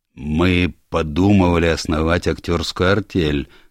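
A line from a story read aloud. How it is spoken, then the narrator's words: Plain. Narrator (Russian): сказал главный ном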